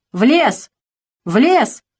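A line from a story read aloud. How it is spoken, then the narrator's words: Shouting across village. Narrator (Russian): кричал он на всю деревню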